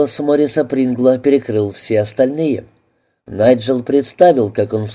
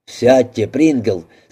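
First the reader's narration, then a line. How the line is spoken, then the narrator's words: Angry snap. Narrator (Russian): сердито бросил мистер Огден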